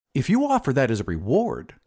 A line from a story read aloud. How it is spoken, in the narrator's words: said the glassblower eagerly